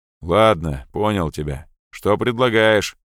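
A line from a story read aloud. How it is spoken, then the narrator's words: Gloomy grumble. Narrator (Russian): мрачно буркнул подполковник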